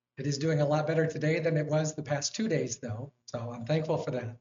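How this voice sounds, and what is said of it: Hoarse, strained voice. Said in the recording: “my voice is still reeling a little bit, and you can probably notice this is not a seasonal cold... excuse my voice... that's when my voice cracks”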